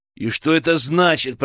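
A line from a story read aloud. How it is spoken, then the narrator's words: Growled. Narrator (Russian): прорычал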